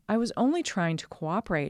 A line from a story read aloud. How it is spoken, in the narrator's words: said